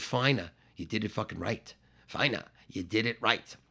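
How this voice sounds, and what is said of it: English accent impression of another person. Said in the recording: “my like English impersonation of Keith Moon”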